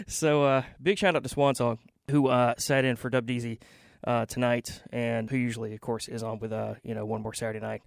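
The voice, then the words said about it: Breathless, out-of-breath speech. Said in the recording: “I'm out of breath. Why am I out of breath? I had to take the stairs all the way up here. I'm still out of breath.”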